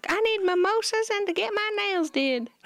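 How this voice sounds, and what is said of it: Princess Leia character voice. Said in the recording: “So that's Princess Leia's accent.”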